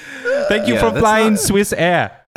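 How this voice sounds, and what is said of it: Exaggerated joyous vaguely German Swiss accent. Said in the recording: “butchering your accent, but it's like vaguely German and joyous ... and hard hitting”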